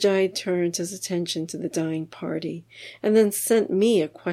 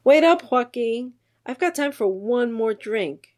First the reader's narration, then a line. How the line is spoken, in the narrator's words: yelled across the living room